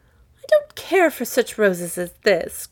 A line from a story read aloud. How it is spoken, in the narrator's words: cried, tossing it contemptuously away